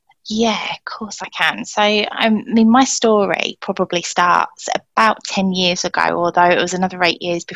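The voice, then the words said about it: Southern English accent. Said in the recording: “my accent betrays me as a southerner”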